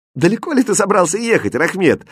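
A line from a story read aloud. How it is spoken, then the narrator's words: Laughing question. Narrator (Russian): спросил его, смеясь, Аладдин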